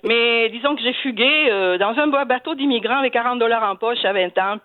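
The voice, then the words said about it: Southern French accent. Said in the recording (French): “qui se moquent beaucoup de mon accent ... je viens du sud, alors on parle comme ça chez nous ... Ben vous l'avez gardé”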